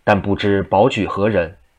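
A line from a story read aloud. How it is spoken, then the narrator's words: Plain. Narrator (Chinese): 济公说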